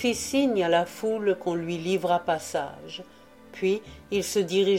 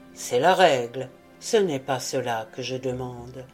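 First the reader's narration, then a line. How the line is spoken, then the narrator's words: Watchman, gentle reply. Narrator (French): répondit doucement le veilleur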